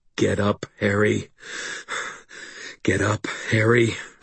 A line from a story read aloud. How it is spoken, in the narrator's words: I panted, fighting through the disorientation, the polar shifts in pain